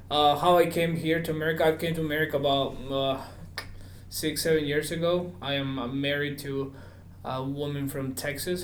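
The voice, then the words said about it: Peruvian Spanish accent in English. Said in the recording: “I'm originally from Peru ... I thought it was South Alabama with that accent. It's not South Alabama, dude ... I think I have a cool accent.”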